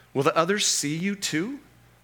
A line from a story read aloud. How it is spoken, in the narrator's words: asked Lucy